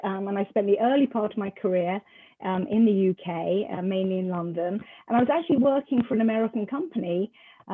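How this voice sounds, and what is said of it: British accent. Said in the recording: “your accent, you're British”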